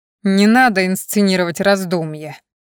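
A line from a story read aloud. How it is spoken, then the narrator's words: Growl. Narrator (Russian): прорычал он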